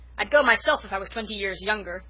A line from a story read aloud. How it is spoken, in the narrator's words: Norman Douglas was shouting